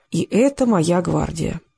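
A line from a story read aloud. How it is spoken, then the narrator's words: Sighing. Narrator (Russian): Гончар вздохнул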